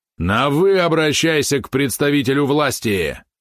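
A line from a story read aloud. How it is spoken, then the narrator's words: Barked. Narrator (Russian): рявкнул он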